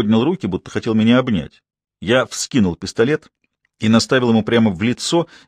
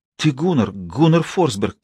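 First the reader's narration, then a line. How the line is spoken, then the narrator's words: Moved, relieved babble. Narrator (Russian): пролепетал Кольстром со странными нотками в голосе, в которых я неожиданно для себя различил растроганность и облегчение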